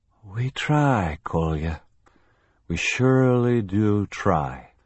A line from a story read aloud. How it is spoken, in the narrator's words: Zacharias said, his voice slurred